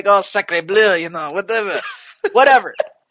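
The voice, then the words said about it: Bad put-on French accent. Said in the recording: “a really terrible French accent ... this French accent”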